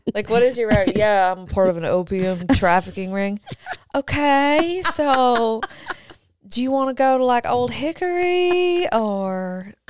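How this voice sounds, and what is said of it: Impression of the co-host's voice. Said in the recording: “I love your impression of me. ... Yeah, I love doing an impression of you.”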